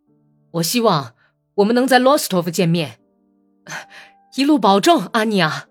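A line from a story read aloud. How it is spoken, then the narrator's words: Restrained, feigned cheerful shout. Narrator (Chinese): 他 克制着自己的意志，假装很高兴的样子喊道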